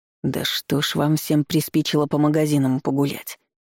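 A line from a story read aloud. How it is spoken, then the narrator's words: Grumbling mutter. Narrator (Russian): пробурчал он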